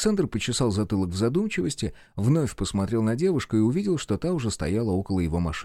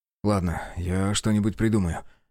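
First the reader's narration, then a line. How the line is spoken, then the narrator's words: Sighing. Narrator (Russian): вздохнул Белый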